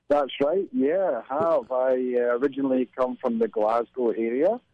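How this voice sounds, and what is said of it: Mixed Highland and Glasgow Scottish accent. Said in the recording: “my accent at the moment is very mixed between Inverness, the Highlands, and Glasgow”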